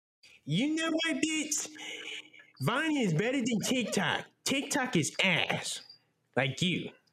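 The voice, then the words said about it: Imitates another person's voice. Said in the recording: “a good impersonation.”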